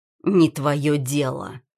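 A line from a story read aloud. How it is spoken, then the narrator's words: Through clenched teeth. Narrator (Russian): выдавливает сквозь зубы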